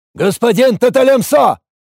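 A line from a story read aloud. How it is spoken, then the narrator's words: Shout, warrior. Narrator (Russian): выкрикнул воин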